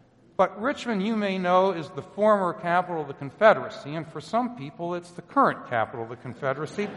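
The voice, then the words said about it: New Jersey accent. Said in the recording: “I'm not really from the South. That's why I don't speak with a great, wonderful accent like that. I speak with a New Jersey accent.”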